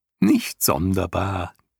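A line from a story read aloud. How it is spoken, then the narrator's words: Giggled into ear. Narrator (German): kicherte Argax ihm ins Ohr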